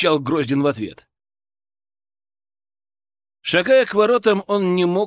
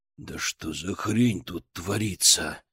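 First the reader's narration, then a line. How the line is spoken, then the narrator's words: Growled under breath. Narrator (Russian): прорычал Константин себе под нос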